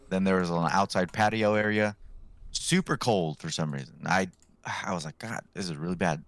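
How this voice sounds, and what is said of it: Deeper, sore-throated voice. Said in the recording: “I sound a little deeper today. I kind of have a sore throat”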